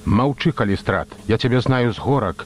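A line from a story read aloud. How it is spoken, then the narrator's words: Angry retort. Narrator (Belarusian): злосна блаславіў крыкуна вучань аратар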